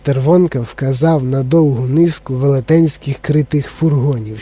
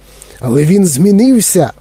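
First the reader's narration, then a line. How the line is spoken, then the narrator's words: Old man exclaiming. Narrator (Ukrainian): вигукнув дідунь Джо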